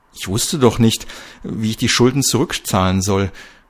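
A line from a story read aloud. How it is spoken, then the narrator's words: Stammered. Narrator (German): stammelte Schedewi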